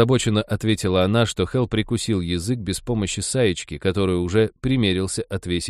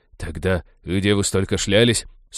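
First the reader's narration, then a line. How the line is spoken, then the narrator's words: Sarcastic grumbling. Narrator (Russian): Сукаризный проворчал Натан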